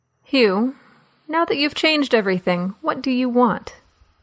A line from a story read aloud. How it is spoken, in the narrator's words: He groaned